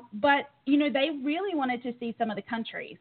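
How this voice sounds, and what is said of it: Noticeable non-native accent. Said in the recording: “my accent is stronger than it was before”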